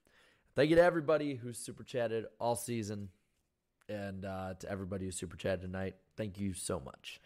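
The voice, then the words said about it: Hoarse, worn-out voice. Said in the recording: “bearing with my dying voice. I'm not even sick. It's just my voice is just shot.”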